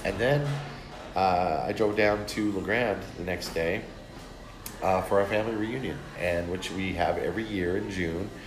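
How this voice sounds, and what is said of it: Raspy, deep voice from a cold. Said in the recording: “this nasty cold I'm trying to get over... my raspy voice... Barry White's in the house.”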